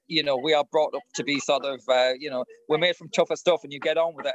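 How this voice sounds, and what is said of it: Northern English accent. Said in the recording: “I'm obviously being Northern, as you might have got from the accent.”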